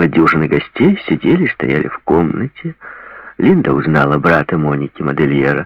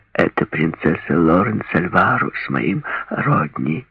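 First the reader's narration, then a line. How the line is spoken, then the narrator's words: Whisper. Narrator (Russian): прошептала Моника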